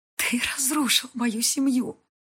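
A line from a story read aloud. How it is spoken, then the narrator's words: Sobbing. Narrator (Russian): приговаривает сквозь рыдание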